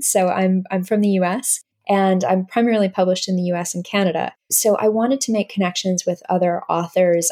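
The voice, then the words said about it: North American accent. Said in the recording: “my accent are North American”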